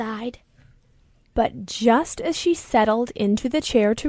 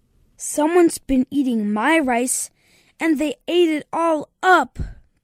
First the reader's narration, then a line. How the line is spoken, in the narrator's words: cried the Baby Bear